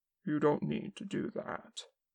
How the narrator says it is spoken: Kim said quietly

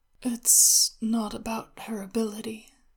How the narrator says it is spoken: Xin Fei said, drowsily

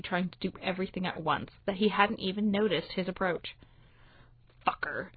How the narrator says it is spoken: John hisses, struggling

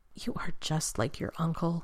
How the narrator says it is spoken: John whispered to her

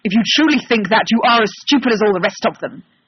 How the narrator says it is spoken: Sherlock snaps

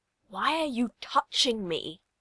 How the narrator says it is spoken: Tim hisses

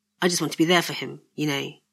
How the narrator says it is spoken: he added quietly

